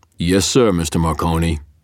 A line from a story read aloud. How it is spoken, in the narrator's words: Hendricks' rumbling basso answered